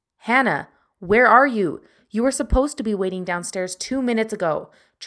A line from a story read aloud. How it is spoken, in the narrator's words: Travis yelled to her